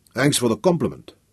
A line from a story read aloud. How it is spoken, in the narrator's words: said dryly